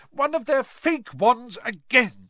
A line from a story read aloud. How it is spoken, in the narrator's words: she shouted